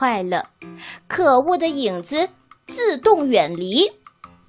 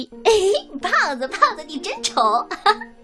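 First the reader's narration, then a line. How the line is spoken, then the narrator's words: Mocking tone. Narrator (Chinese): 满口嘲笑的语气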